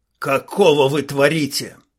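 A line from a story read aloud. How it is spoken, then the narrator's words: Boar's growl. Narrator (Russian): рыкнул вепрь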